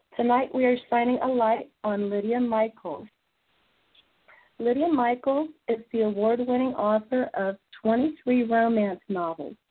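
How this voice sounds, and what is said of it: Hoarse, laryngitis-affected voice. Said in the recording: “as you can tell, I'm coming back from a little bit of laryngitis”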